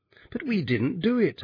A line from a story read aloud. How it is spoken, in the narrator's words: I cried